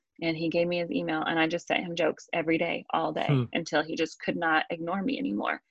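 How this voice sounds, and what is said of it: Southern US Georgia accent. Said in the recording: “He heard my accent. He was like, where are you from? ... I'm from Georgia.”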